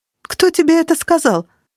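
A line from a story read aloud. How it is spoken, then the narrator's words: Sharp question. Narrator (Russian): спросила Кира резко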